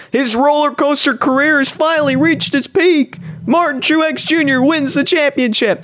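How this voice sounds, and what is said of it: Imitates a race announcer's voice. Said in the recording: “my Rick Allen impression ... it was horrible. I botched it.”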